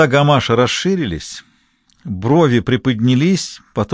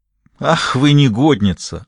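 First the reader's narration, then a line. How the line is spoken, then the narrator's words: Laughing loudly. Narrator (Russian): расхохотался он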